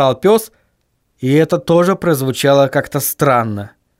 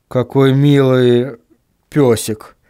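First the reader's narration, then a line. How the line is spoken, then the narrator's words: Uncertain. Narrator (Russian): неуверенно произнес Вильям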